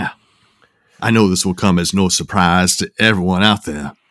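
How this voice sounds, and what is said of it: Usual voice. Nothing is said of it.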